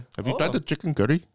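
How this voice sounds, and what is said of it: Put-on Indian accent. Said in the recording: “what about an Indian accent? ... What about Indian? ... Pakistani, Indian.”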